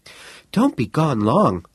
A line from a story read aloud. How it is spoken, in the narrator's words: Miss Smith called anxiously after him